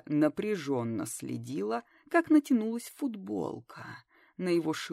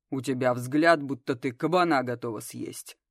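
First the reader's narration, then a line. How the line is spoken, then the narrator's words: Rough chuckle. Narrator (Russian): грубо хохотнул Дагар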